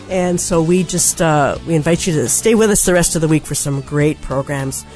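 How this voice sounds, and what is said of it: Strained, failing voice. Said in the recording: “oh, my voice is going”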